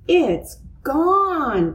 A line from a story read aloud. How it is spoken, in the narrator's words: cried Francine